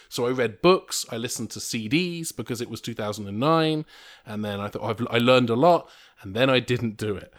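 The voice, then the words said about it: English accent. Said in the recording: “you are legit English ... gets so much free shit through this accent”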